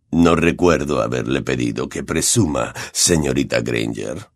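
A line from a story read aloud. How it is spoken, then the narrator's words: Cold speech. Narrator (Spanish): dijo Snape fríamente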